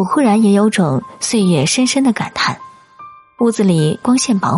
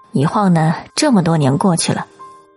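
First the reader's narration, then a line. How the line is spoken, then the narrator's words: Soft sigh, wistful. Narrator (Chinese): 母亲轻叹口气说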